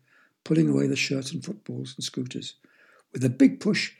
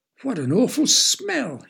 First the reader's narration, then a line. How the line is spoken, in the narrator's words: squeaked